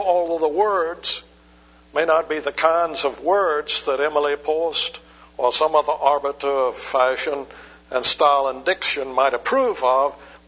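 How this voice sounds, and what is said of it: Southern American accent. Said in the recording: “the ideal accent, like I do. ... That southern accent.”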